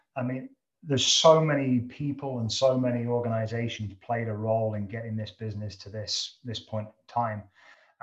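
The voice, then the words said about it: British accent. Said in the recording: “you can tell from my dialect, I'm not a Canadian. I'm originally from the UK”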